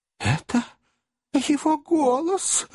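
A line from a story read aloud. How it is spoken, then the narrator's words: Agitated exclamation. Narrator (Russian): воскликнула незамужняя тетушка, прежде чем обнаружились серьезные симптомы, предвещающие припадок номер третий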